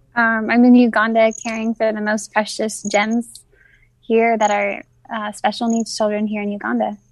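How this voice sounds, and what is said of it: American accent. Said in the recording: “I can tell from your accent, you're American”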